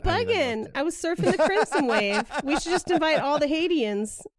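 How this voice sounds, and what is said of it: Unconvincing put-on accent. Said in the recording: “swing and a miss on the accent”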